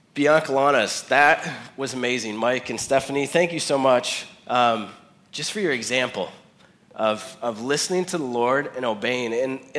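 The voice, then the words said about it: Slightly off voice from a cold. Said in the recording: “I've had a little cold this week ... my voice is a little off”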